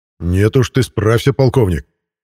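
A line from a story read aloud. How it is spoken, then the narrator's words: Angry, harsh reply. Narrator (Russian): неожиданно зло и жестко ответил генерал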